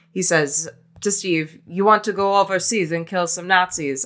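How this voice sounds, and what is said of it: Poor attempt at German accent. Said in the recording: “i tried doing a German accent there, but it was about as good as Stanley Tucci's”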